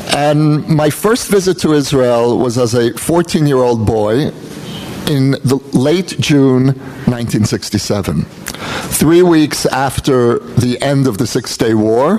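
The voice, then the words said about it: American accent. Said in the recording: “you can hear from my accent that I'm American-born”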